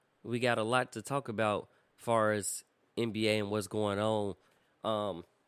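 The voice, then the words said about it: Cracky voice going in and out. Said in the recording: “my voice sounds a little cracky. It's been going in and out”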